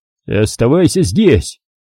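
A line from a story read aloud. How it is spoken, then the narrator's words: Sharp bark. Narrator (Russian): рявкнул Куай-Гон Рите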